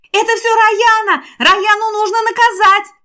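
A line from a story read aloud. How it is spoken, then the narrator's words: Several girls yelling. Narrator (Russian): вопили ее подруги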